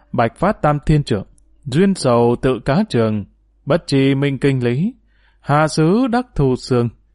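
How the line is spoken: Soft smiling recitation. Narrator (Vietnamese): Lão ma đầu mỉm cười khẽ đọc

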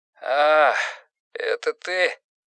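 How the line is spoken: Hoarse, just-woken voice. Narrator (Russian): Голос его был хриплым, словно он только что встал с постели

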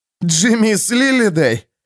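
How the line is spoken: Coughing through laughter. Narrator (Russian): сквозь смех прокашлял Эрвин

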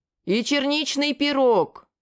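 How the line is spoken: Loud bark. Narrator (Russian): Неожиданно для себя также громко гаркнул

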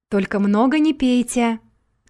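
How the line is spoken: Shouted after someone. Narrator (Russian): крикнул вслед Игорь

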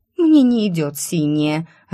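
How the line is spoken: Offended. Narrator (Russian): обиженно проговорила Циковия

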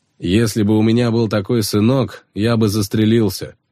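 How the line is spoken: Scoffing snort. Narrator (Russian): Хмыкнул Кис

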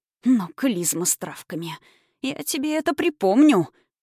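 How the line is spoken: Hissed. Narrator (Russian): прошипела Кара Андреевна

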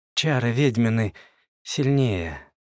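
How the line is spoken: Sad, slurred mumble. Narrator (Russian): печально промычал я, чувствуя, что язык еще не до конца повинуется мне

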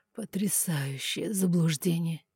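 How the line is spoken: Soft laugh. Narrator (Russian): тихо рассмеялся эльф

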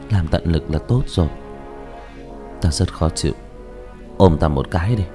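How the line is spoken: Anxious sighing. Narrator (Vietnamese): Như Lãnh Ngọc tâm ý hồi hộp, thở dài nói

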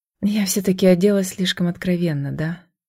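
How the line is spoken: Whisper. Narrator (Russian): прошептала я

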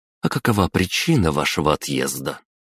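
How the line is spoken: Heavy sigh. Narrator (Russian): Я снова тяжело вздохнул

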